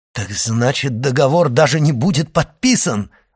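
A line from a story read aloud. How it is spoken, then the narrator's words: Exclaiming. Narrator (Russian): воскликнул Моррель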